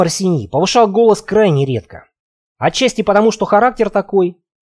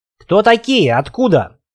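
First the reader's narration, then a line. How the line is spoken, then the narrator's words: Straining shout, abruptly quieting. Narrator (Russian): продолжал надрываться Гуга, но внезапно осекся, резко сбавив тон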